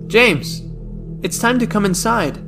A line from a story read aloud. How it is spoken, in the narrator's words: I called out to him